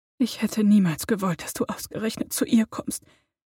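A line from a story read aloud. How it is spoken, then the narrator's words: Whisper. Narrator (German): flüsterte sie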